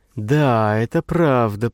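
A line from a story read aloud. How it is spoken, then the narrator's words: Drawling. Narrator (Russian): протянула Наташа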